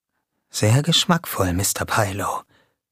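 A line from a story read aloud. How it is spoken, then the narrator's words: Whispered. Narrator (German): wisperte Jamie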